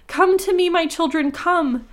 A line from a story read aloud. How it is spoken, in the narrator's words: called out